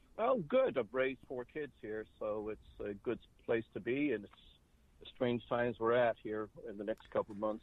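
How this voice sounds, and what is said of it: Boston Massachusetts accent. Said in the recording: “you sound like you have more of a Boston accent, Massachusetts accent, than you do an Irish accent.”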